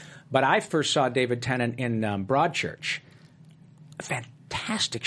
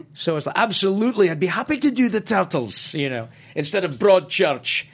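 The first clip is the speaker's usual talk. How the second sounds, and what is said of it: Good impression of a Scottish voice. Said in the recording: “That is a very good impression. ... he's Scottish”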